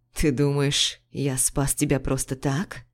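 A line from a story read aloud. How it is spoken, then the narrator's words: Hoarse voice. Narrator (Russian): Его голос был хриплым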